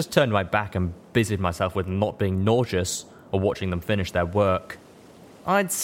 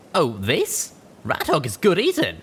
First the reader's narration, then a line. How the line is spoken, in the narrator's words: answered brightly